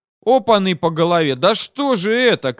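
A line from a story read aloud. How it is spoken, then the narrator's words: Shouted. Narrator (Russian): крикнул Мухин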